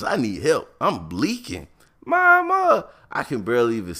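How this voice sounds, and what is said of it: Usual voice. Nothing is said of it.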